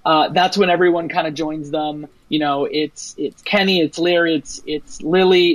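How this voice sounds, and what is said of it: Usual voice. Nothing is said of it.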